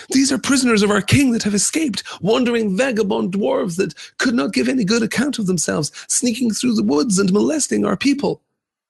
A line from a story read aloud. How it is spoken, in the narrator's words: they cried